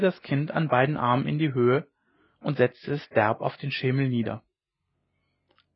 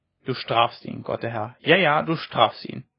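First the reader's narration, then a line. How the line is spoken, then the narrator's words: Murmured, softened by pity. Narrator (German): murmelte sie, aber ein Erbarmen mit dem Kind schien sie doch zu überkommen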